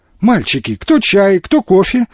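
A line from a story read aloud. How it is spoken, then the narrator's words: Cheerful question. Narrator (Russian): весело спросила Наташа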